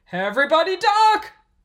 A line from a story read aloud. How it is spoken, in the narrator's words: Bob yelled as the dragons leaped towards them